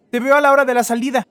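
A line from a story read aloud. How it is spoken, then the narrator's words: Mother calling while hurrying away. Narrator (Spanish): gritó la mamá, quien junto con el resto de los acompañantes ya corrían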